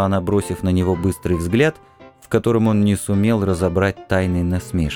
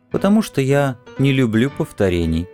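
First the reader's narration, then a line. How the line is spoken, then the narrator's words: Laughing answer. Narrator (Russian): отвечала она, смеясь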